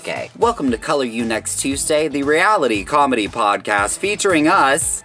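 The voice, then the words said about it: Newscaster voice. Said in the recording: “she wants me to read our intro in my newscaster voice”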